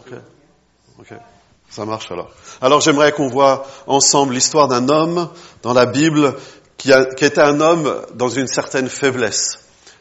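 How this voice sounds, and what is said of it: Non-native accent in French. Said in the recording (French): “vous n'avez pas trop de problèmes avec mon accent”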